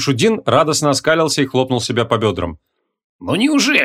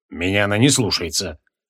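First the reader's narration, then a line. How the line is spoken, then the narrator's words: Grumbling. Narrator (Russian): проворчал Креол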